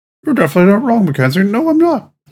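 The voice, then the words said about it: Squeaky Mickey Mouse-like imitation. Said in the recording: “Doing a Mackenzie impression... That's as close as I get to my Mackenzie impression... I sound like Mickey Mouse in your head.”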